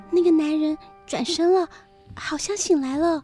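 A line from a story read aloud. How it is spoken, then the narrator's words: Speaking quietly. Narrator (Chinese): 夫人 小声地说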